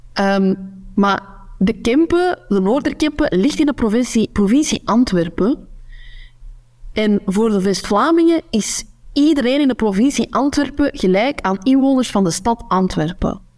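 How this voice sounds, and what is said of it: Kempen Flemish accent. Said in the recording (Dutch): “ik spreek mijn Kempisch accent.”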